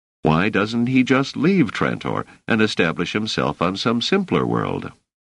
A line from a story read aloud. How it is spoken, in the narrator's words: Doris laughed